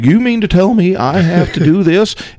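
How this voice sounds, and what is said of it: Soft, rounded Missouri accent impression. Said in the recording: “the Southern Saint or Missouri accent ... it's that real soft, ... rounded ... really soft one ... That is a great limited impression.”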